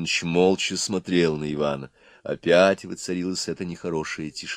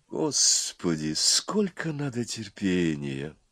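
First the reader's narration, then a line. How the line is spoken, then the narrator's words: Weary sighing dragon. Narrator (Russian): вздохнула первая голова Горыныч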